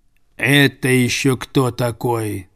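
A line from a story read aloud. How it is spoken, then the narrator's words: Grumbling. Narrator (Russian): проворчал Цезарь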